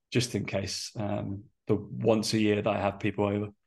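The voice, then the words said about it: Strained, hoarse voice. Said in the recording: “I feel like I'm losing my voice... My voice is a little bit”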